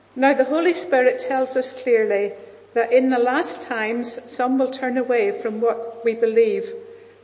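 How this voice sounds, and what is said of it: Northern Irish accent. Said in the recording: “a lovely Northern Irish accent”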